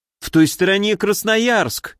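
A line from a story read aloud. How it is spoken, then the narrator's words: Frightened exclamation. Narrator (Russian): испуганно воскликнул Овес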